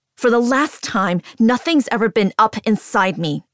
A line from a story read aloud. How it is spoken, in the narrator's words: I scream